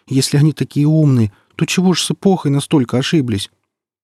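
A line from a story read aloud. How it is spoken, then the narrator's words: Trembling voice. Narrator (Russian): дрожащим голосом обратился к нему Сочинский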